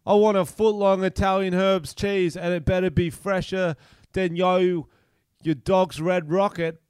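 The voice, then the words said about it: Weak imitation of another person's voice. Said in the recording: “I can't do that one. It's the one accent I can't do.”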